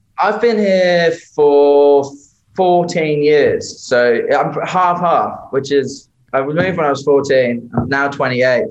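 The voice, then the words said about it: British accent. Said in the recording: “accent's, you know, still got the UK accent.”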